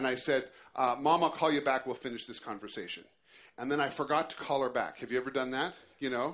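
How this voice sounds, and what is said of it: Usual voice. Nothing is said of it.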